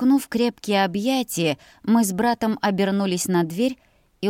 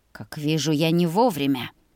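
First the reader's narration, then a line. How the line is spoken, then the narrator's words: Through gritted teeth. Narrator (Russian): процедил он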